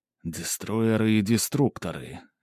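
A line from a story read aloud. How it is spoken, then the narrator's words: Slow whisper. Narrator (Russian): медленно прошептал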